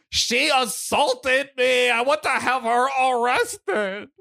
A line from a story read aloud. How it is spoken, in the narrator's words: yelled